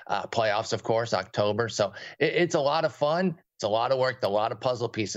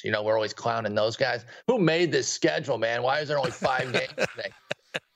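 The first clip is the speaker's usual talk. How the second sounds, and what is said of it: Imitates another person's voice. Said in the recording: “That was a spectacular imitation of me.”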